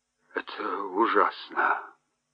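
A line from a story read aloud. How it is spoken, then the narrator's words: Muttered. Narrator (Russian): пробормотал он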